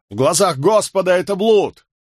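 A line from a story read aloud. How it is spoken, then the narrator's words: Shout. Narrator (Russian): Кто-то из них крикнул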